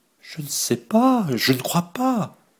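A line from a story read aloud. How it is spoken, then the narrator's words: Girl moaning. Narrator (French): gémit la jeune fille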